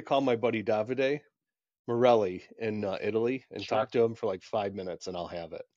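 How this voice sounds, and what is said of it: Usual voice. Nothing is said of it.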